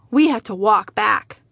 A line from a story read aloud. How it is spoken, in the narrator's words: my father sighed